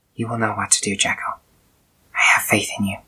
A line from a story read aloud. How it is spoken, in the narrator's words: Samantha whispers